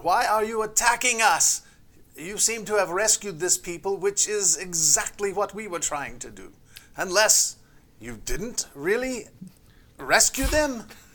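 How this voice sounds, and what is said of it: Put-on Eastern European accent. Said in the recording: “Are you Russian? ... the accent's ... He falls back into the old country ... Serbian ... this doesn't sound right”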